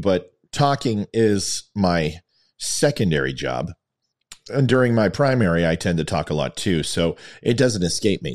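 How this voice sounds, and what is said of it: Scratchy, worn voice. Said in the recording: “my voice is a little scratchy ... my voice is feeling the wear and tear”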